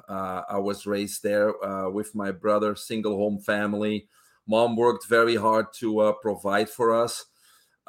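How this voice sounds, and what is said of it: Belgian accent. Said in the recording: “everybody probably can pick up an accent. I'm originally from Belgium in Europe.”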